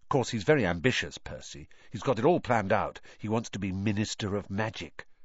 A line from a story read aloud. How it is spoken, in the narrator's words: Ron told Harry and Hermione in an undertone